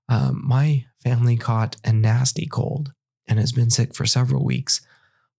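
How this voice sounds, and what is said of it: Sick, congested voice. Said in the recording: “If you can't hear it in my voice, I am sick right now.”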